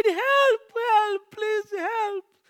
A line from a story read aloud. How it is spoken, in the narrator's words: cried